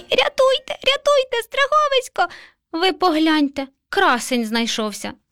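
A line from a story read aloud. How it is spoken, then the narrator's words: Terrified squeak. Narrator (Ukrainian): Мишеня нажахано запищало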